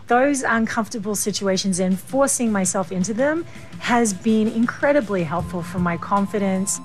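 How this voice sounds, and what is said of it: Australian New Yorker accent. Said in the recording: “she has an Australian New Yorker accent. Interesting dialect”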